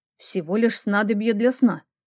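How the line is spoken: Mumbling. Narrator (Russian): пробормотал Итан

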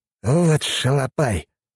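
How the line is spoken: Indignant hiss. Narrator (Russian): возмущенное шипение Жемчужникова

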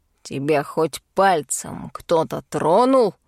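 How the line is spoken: Growled. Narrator (Russian): прорычал Бернар

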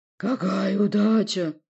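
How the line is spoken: Roaring. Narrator (Russian): взревел

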